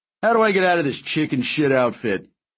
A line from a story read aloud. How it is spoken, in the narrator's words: I laughed